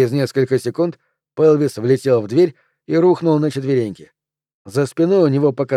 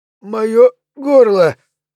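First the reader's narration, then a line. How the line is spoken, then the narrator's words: Choking wheeze. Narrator (Russian): задыхаясь, просипел Флинт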